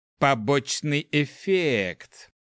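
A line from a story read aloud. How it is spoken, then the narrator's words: Thoughtful drawl. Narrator (Russian): Задумчиво протянул зельевар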